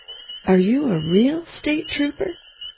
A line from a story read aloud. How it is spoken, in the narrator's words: chuckled